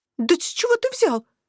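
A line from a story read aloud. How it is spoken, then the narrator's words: Hoarse startled squeak. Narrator (Russian): осипшим от неожиданности голосом пропищала я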